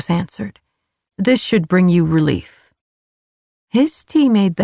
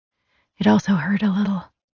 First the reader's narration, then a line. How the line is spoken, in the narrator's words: I rasped, eyes and throat stinging